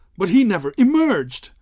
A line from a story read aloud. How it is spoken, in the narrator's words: gasped